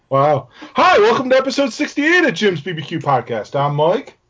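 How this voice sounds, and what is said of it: Yelling, loud delivery. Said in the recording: “Apparently we're yelling tonight.”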